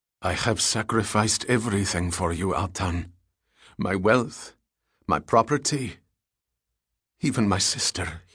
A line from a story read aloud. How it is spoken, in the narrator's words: added, his voice quivering